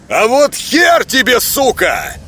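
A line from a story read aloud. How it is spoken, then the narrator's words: Angry shout. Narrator (Russian): зло выкрикнул Казанский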